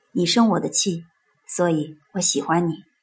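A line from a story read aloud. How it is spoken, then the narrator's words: Soft low voice. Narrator (Chinese): 爸爸 低声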